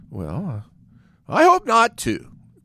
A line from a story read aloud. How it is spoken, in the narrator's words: cried the rat heartily